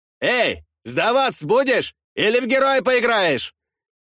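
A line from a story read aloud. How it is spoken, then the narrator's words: Distant shouting. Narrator (Russian): Кто-то кричал со стороны дороги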